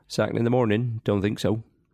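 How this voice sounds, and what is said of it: West Country accent impression. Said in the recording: “your famous, and it is famous, Ian Holloway impression ... Absolutely perfect ... Absolute perfection ... an impression of another person from the West Country”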